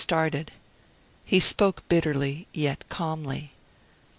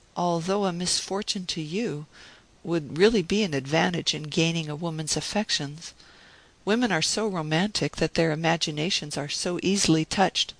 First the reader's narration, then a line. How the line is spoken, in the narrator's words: I said, and my voice trembled slightly, for I felt that a crisis was at hand